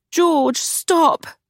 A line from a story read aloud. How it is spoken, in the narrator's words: Charlotte pleaded